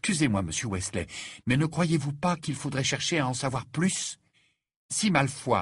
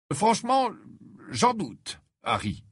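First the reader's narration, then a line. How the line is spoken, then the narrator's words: Slow reply. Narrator (French): répondit lentement monsieur Wesley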